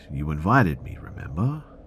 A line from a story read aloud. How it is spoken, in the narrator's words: kept kind of laughing under their breath